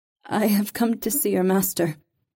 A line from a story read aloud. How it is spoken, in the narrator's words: Reva said shakily